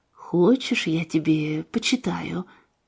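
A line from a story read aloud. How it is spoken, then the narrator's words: Quiet grandmotherly voice. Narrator (Russian): бабушка тихо сказала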